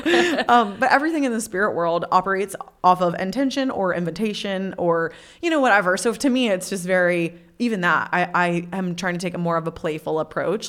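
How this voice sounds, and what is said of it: Speaks with a twang. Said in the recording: “I love your twang”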